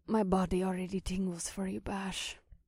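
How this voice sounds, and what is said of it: Husky, desirous female character voice. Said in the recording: “in a husky voice full of desire, and her melodic accent reminded me of wind chimes catching an ocean breeze”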